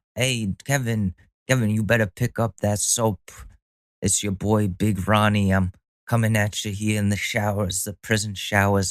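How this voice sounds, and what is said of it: Bad Italian New York accent. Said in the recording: “That's my shitty Italian accent. New York.”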